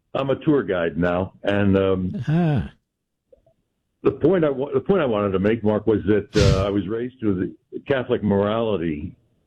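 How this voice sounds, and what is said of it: Polished radio-announcer voice. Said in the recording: “radio voice, America. you have a radio voice.”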